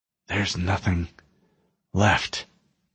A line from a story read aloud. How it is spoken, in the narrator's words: he whispered